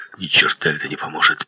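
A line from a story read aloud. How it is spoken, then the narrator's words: Hoarse, frightened voice. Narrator (Russian): прохрипел побледневший Хардинджер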